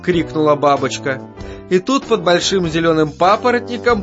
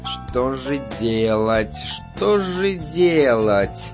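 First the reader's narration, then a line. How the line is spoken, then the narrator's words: Muttering. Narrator (Russian): бормотала муха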